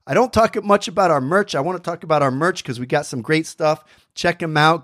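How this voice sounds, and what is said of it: Hoarse, fading voice. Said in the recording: “I'm losing my voice in that fall... I'm losing my voice... before I'm completely hoarse.”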